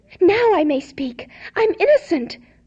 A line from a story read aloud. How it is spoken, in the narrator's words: cried